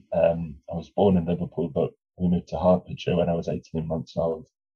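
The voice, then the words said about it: Flat, nondescript English accent. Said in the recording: “I've got this very, I think, very sort of flat, nothingy accent.”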